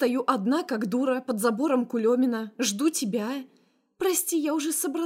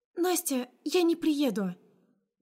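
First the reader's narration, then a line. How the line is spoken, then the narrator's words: Guilty voice. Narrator (Russian): Виноватым голосом произносит подруга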